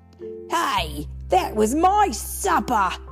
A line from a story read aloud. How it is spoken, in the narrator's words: yelled a man